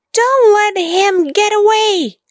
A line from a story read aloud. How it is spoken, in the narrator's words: yelled Whiff